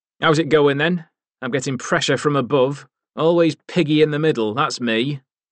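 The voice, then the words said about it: Yorkshire accent, unpleasant whiny voice. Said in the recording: “The Yorkshire accent had remained unchanged and was a matter of pride. ... His voice was an unpleasant whine.”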